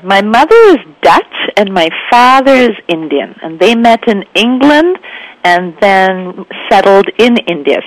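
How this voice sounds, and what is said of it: Bombay Indian accent. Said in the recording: “The accent is a Bombay accent. ... A little bit of Dutch thrown in.”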